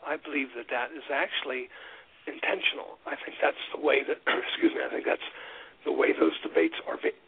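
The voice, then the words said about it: Hoarse, failing voice. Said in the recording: “I'm losing my voice too”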